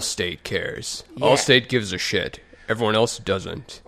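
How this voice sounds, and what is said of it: Impression of Allstate commercial voice. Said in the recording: “That's a terrible impression of it ... That's a perfect impression.”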